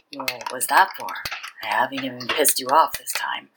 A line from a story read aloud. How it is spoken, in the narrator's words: Joseph Shue murmured against his mouth